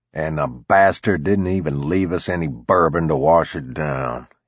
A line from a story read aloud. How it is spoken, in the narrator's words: he grumbled